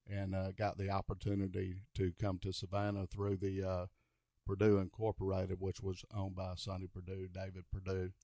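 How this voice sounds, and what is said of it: Southern US accent, Alabama-like. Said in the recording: “I'm processing your accent, and I didn't have you pegged for Atlanta. I had you pegged for Alabama.”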